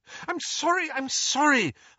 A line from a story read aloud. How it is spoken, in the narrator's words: Hermione cried